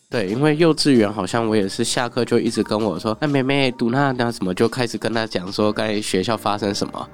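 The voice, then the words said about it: Mandarin with a slight accent. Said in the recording (Chinese): “你的国语也很好，可是还是有一点点口音 ... 有一些客人他会觉得是我讲话有口音 ... 我一听就是台湾人的讲话方式”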